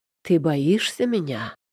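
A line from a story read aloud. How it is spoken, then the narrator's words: Disgustingly tender voice. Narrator (Russian): Голос Итана звучит омерзительно ласково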